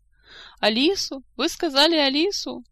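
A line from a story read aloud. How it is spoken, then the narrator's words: Sobbing, wailing. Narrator (Russian): зарыдала, причитая в голос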